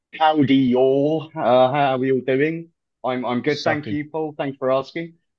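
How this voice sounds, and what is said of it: American accent, New York. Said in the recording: “all the way from New York City ... Yours isn't that much better with the over the across the pond side of things ... I'm not losing the accent”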